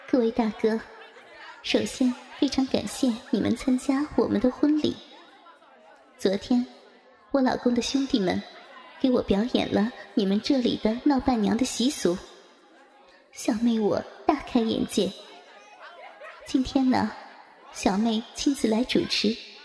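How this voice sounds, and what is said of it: Coquettish, flirtatious female voice. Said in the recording (Chinese): “用娇媚的声音说”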